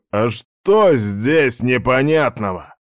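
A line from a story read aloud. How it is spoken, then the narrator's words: Roaring again. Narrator (Russian): Вновь взревел тот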